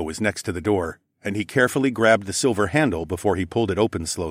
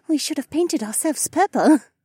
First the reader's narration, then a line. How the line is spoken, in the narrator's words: giggled quietly